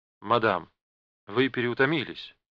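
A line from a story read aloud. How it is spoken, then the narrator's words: Gentle remark. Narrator (Russian): мягко заметил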